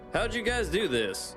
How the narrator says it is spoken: Scott laughed

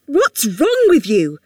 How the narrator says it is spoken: shouted, her voice bouncing back off the brick

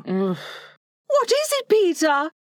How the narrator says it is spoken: cried, running to him, thinking he was ill

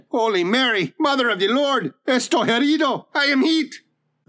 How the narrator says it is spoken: the man shouted

